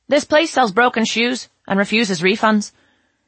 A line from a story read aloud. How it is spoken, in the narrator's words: raising her voice, announced